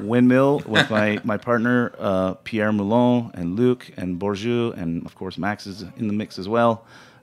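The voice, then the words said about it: Rough-sounding voice. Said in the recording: “It's probably why I sound pretty rough today.”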